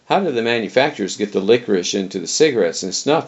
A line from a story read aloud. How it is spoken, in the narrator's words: I asked